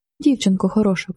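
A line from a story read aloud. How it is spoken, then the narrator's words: Soft whisper. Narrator (Ukrainian): прошепотів він тихо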